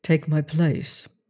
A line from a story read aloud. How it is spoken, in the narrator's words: I said quietly